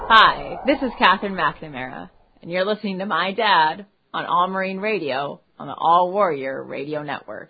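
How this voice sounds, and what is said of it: Put-on radio announcer voice. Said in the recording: “She thinks she's a radio voice now.”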